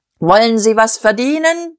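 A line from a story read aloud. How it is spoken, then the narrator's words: Bellowing like a crier. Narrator (German): brüllte er, wie ein Ausrufer in den Tumult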